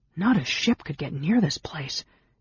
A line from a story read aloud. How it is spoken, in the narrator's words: Tanis muttered